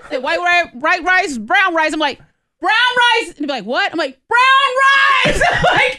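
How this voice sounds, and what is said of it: Yelling loudly. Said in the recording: “I'm yelling now.”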